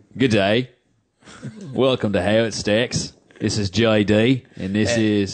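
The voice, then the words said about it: Attempted Australian accent. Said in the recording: “it's really, really hard to do an Australian accent without slipping into British.”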